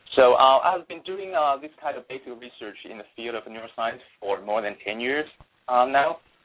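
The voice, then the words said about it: Non-American foreign accent. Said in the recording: “my accent, um, I'm not really an American”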